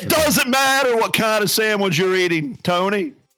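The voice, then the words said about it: Loud imitation of another person's voice. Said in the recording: “that was ear cancer. I think my eardrum just is bleeding now ... That was my rock impersonation.”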